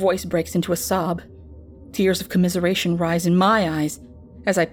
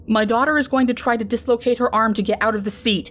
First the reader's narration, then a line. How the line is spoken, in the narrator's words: a man yells out to the group